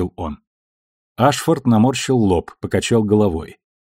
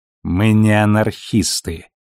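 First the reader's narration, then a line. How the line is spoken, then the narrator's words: Contemptuous, through teeth. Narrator (Russian): процедил он, изобразив на лице презрение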